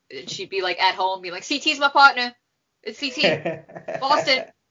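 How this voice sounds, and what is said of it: Put-on Boston accent. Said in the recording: “you went with the different Boston accent than the Boston accent that Kara has ... I don't know how to do accents”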